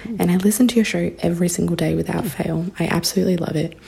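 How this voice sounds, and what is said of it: Australian accent. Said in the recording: “as you can probably tell by my accent, I am not an American, but I am an Australian”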